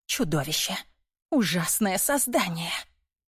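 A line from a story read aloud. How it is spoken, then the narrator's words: Frightened whisper. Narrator (Russian): выглядела испуганной и вновь повторяла шепотом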